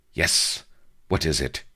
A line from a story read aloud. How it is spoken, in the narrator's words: snapped